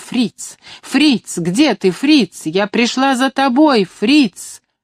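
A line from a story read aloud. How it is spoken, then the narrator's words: Shout. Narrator (Russian): Я закричала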